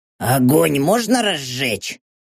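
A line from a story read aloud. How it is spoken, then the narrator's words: Hoarse question. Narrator (Russian): сипло поинтересовался Хорхе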